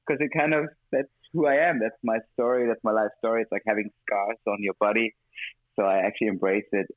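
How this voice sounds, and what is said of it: Mixed international non-native accent. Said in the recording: “I was trying to have a more British accent, I guess, in a way, which would never happen, at least not fully ... this multi-culti, gypsy, like vagabond kind of accent”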